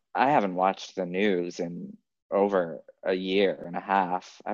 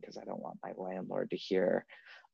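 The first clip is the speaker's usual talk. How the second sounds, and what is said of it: Whispering. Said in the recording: “I'm whispering”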